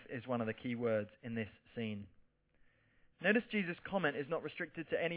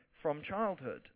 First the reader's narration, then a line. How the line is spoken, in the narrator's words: the father said